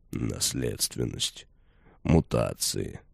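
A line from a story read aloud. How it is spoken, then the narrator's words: Old man mumbling. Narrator (Russian): пробормотал деда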